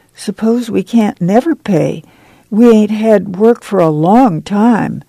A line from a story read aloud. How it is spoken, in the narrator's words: Joyce said timidly